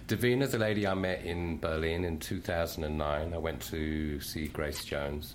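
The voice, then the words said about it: Speaks with own accent. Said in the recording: “in your accent? ... I love how you said. Much better than me”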